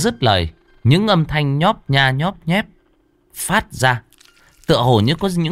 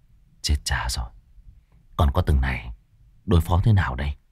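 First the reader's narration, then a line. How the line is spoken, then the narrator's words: Muttering. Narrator (Vietnamese): A Pủa miệng lẩm bẩm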